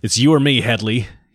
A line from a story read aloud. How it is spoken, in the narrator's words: he snarled